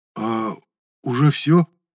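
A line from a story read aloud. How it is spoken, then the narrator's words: Disappointed exhale. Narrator (Russian): Будто бы разочарованно выдохнул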